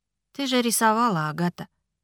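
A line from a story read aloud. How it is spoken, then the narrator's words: Tired remark. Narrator (Russian): устало заметил Ричард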